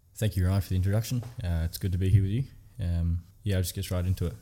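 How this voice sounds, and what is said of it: Noticeable accent. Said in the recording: “focus on more than just the accent”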